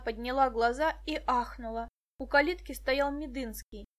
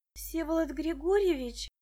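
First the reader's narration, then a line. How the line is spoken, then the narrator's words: Breathed out. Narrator (Russian): выдохнула Муся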